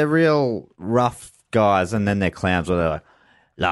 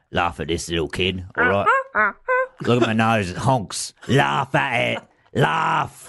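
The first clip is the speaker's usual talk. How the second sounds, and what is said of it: Odd put-on accent, vaguely London. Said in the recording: “haven't got the accent yet ... via North London, innit? ... I don't know where that accent's from, if anywhere. It's unearthly in a lot of ways.”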